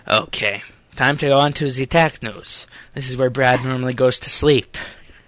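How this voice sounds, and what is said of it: Put-on Eastern European accent. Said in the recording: “that Eastern European accent. It's not very nice.”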